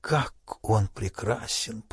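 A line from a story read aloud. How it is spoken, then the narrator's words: Muttering. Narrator (Russian): пробормотал Фунгабера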